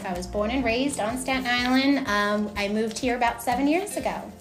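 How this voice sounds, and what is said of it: New York Staten Island accent. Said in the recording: “I grew up on Staten Island. I am not from North Carolina, obviously from my accent.”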